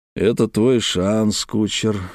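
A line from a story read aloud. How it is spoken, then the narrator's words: Low, private voice. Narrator (Russian): сказал он негромко, чтобы слышали только мы двое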